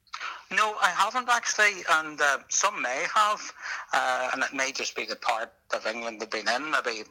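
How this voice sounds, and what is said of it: Irish accent. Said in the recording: “your Irish accent”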